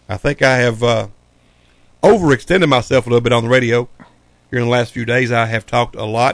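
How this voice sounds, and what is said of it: Hoarse, strained voice. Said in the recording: “Sorry about my hoarseness. ... I lose my voice for a little while”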